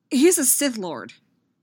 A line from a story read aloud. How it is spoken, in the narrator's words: Anakin blurted out